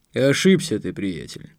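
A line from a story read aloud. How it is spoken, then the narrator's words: Cold reply. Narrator (Russian): холодно отозвался Марк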